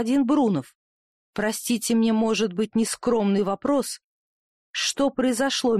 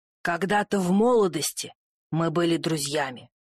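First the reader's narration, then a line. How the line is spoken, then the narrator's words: Low muffled voice. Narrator (Russian): глухо проговорил Брунов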